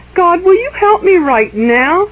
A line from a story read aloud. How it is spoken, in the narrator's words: asked Jared timidly